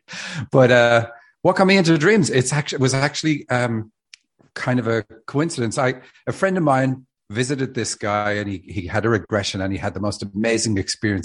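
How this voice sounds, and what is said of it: Irish accent. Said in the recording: “I'm from Dublin, Ireland. ... actually having an accent here helps me. Americans love accents.”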